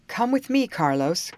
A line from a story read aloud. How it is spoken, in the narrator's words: cried Captain Norton